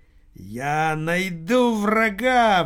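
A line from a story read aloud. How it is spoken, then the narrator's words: Howling. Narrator (Russian): взвыл Аджио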